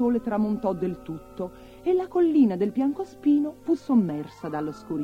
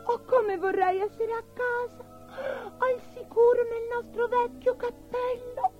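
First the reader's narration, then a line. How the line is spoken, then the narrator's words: Sobbing. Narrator (Italian): singhiozzò Abigail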